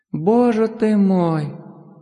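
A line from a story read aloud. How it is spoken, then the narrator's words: Moaned. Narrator (Russian): она простонала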